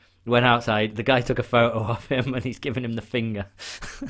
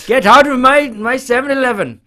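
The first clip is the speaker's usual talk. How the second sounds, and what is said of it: Put-on Indian accent. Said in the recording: “he was actually Indian, so when I do this voice, it's because it's accurate.”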